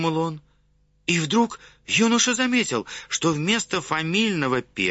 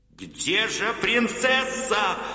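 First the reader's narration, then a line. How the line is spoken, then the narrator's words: Frantic shout. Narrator (Russian): неистово закричал Омар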